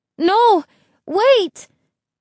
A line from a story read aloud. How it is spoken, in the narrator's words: Isabel cried